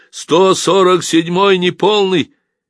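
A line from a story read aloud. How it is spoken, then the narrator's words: Shout. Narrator (Russian): левофланговый красноармеец, теперь убитый маленький хорек, крикнул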